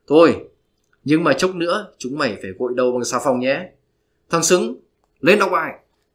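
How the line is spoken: Gentle calm voice. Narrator (Vietnamese): Ông giáo ôn tồn nói

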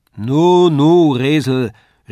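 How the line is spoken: Call from across room. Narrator (German): rief Herr Tändler von der anderen Wand

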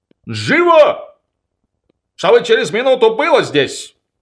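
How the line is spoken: Shouted. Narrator (Russian): крикнул

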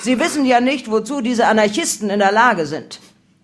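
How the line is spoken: Shouted. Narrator (German): brüllte

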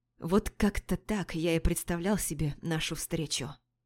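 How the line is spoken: Whispered in ear. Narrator (Russian): прошептал мне на ухо

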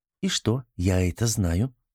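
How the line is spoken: Calm reply, wild woman. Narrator (Russian): спокойно ответила дикарка

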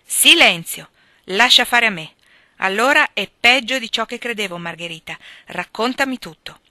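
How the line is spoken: Commanding tone. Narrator (Italian): disse la signora March in tono di comando

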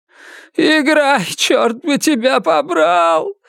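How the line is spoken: Sobbing shout. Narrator (Russian): всхлипывая, крикнул он

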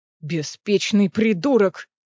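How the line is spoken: Growl. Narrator (Russian): прорычал Кассиан

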